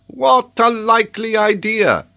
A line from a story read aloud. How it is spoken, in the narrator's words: exclaimed the geographer